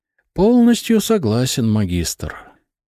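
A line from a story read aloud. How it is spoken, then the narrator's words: Guilty sigh. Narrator (Russian): вздохнул Барс, словно он был виноват в этом казусе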